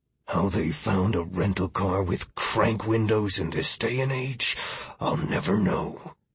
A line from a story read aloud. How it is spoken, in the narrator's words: Miller mumbled